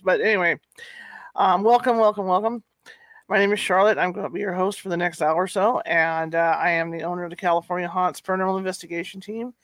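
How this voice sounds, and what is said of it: Deeper than usual, congested voice. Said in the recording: “I have allergy problems, so my voice is a little deeper than it usually is”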